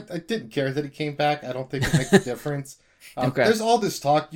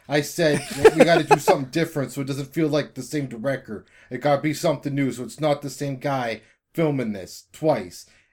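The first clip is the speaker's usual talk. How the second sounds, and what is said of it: Impression of Christopher McQuarrie's accent. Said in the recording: “I'm quoting Christopher McQuarrie now. You can tell by my accent.”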